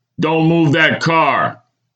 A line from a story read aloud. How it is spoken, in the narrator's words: barked, with an angry scowl